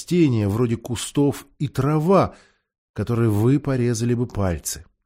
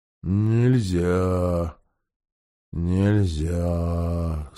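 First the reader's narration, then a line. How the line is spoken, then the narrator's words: Sleepy. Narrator (Russian): сонно повторила Гого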